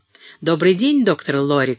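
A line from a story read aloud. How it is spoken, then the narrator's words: Friendly shout. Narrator (Russian): крикнул приветливо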